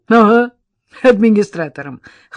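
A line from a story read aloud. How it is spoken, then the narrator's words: Snort. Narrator (Russian): хмыкнул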